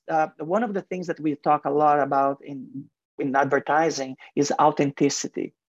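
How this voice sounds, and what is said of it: Heavy foreign accent. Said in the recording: “You can hear my heavy accent.”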